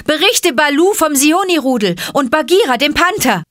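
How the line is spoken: Called out. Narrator (German): rief Mowgli ihm zu

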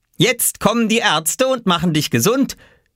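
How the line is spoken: Called out. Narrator (German): rief Oskar

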